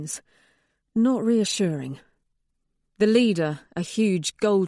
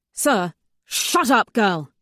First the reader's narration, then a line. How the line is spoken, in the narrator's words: he snaps